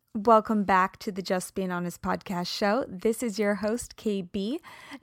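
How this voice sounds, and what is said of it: Slightly raspy voice. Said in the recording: “a little raspy rasp coming along there ... went for a long run this morning in the cold”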